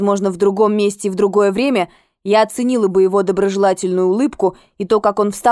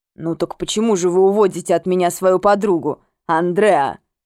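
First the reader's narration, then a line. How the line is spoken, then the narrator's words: Deep resonant bass question. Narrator (Russian): спросил Уильям глубоким звучным басом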